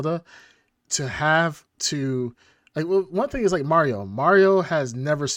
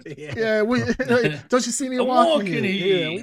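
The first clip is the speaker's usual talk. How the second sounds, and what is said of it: Put-on New York accent. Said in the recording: “he's gonna have an Italian accent. ... a New York accent.”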